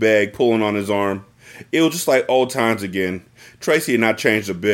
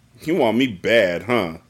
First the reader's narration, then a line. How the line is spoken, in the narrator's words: Bruce asked her sarcastically